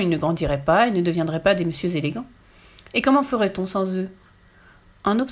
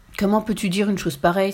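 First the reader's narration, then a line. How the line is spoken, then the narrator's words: Exclaimed. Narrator (French): s'exclama Tommy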